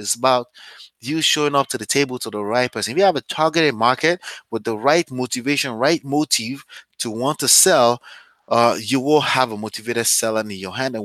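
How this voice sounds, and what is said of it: Strong accent. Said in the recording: “I have a strong accent”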